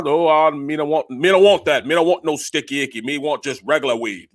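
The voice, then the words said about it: Imitated Jamaican accent. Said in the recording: “he pure Jamaican ... with the accent, man ... Jamaican accent”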